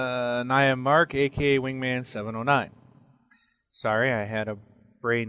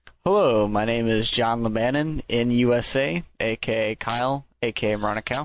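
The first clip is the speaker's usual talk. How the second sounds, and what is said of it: Imitates another person's voice. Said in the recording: “good, good impersonation ... Really sound like Kyle was here this week”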